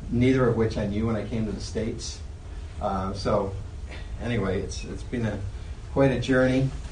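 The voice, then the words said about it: Slight Irish accent. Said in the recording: “I think you probably hear my accent a little bit... When you come from Ireland”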